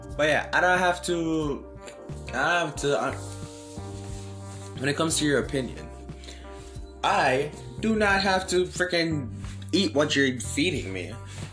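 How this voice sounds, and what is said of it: Tired, mumbling speech. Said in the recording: “I'm mumbling. I'm tired.”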